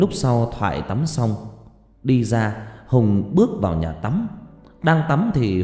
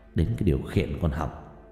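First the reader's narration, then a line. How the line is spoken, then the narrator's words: Muttering. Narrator (Vietnamese): Hùng lẩm bẩm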